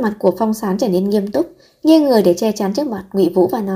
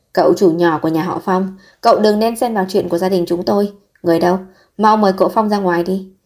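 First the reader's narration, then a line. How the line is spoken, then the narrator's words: Angry smile. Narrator (Vietnamese): nở một nụ cười tức giận và nói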